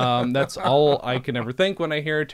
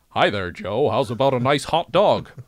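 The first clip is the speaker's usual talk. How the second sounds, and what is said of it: Deliberately bad American accent. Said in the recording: “very well-paid actors sound like ... a terrible American accent”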